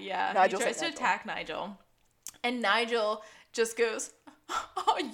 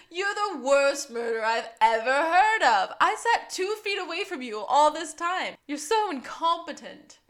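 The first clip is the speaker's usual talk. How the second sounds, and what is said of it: Bad put-on British accent. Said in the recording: “I can't sound like Tim Curry, so I'm just doing a bad man British accent.”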